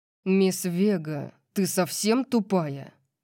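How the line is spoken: Growl. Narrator (Russian): прорычал он

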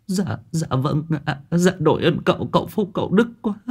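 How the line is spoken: Tearful, whimpering. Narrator (Vietnamese): Bà Thu mếu máo

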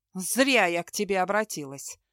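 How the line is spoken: Defensive snap. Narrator (Russian): огрызнулась Мелисента, не желая признавать его правоту

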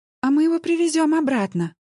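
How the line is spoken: Joyful. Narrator (Russian): радостно сообщила Алена

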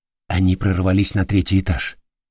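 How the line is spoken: Quiet report. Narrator (Russian): негромко доложил вернувшийся телохранитель

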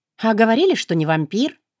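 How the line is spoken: Ironic snort. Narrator (Russian): хмыкнула иронично

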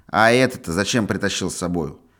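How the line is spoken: Stern question. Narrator (Russian): спросила она, строго

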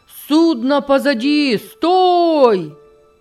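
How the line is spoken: Shouted. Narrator (Russian): кричал он

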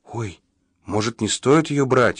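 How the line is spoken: Frightened whisper. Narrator (Russian): испуганно прошептала Поля

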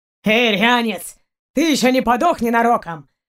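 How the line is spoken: Booming nasty voice. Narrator (Russian): прогремел противный голос Барка

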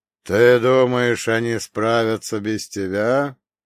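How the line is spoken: Sarcastic drawl, rider. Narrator (Russian): язвительно протянул всадник

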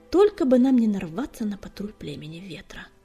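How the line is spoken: Hiss. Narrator (Russian): прошипел Огнегрив

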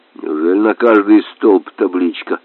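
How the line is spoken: Plain. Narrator (Russian): спросил капитан

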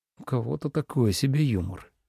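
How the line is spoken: Grumble. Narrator (Russian): буркнул Ленард в стылый воздух

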